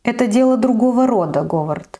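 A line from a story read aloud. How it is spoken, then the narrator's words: Sighing. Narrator (Russian): вздохнул Тирген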